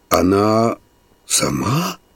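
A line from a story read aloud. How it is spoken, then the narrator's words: Whispered. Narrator (Russian): прошептал шофер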